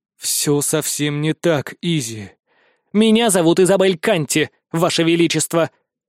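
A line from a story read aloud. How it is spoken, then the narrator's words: Menacing young woman. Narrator (Russian): грозно сверкая глазами, произносит девушка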